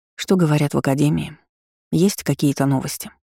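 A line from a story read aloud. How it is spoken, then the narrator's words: Plain. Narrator (Russian): спросила у него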